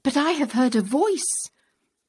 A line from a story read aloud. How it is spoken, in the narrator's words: The questioner exclaimed